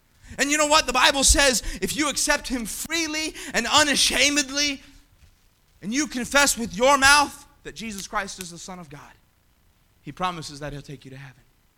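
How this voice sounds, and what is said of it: Yelling preacher. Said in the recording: “why are you yelling so much?”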